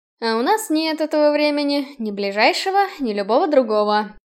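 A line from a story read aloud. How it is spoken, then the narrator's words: Sighed. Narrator (Russian): вздохнул Киган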